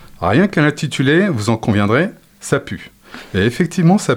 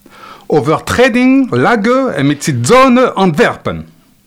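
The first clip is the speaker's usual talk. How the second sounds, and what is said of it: Vague German-Dutch put-on accent. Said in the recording (French): “avec un vague accent germano-néerlandais, ça donne à peu près ça.”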